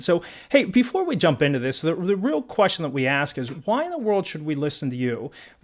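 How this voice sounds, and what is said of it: Pittsburgh accent. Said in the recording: “I'm a Pittsburgh accent ... I'm from Pittsburgh and we got a killer accent.”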